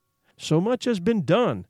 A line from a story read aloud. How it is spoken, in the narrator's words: exclaimed the soul of Frankenstein